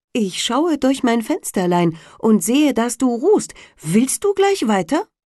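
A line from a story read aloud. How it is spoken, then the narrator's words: Calling out. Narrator (German): rief es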